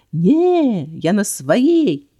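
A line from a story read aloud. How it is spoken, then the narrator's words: Loud yelling. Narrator (Russian): я завопила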